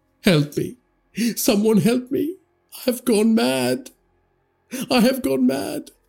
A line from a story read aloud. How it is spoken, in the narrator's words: Tariq wailed